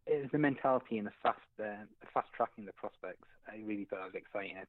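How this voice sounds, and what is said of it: Non-Asian foreign accent. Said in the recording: “I hear your accent. You're clearly not from Asia.”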